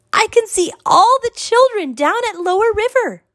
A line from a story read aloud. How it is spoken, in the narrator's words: she shouted